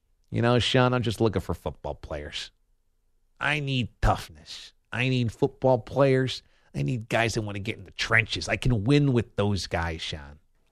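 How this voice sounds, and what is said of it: Imitates another person's voice. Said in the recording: “is that impression better than my John Gruden? ... let's hear some Gruden ... I said you're Gruden, not your Ditka ... That is the Gruden”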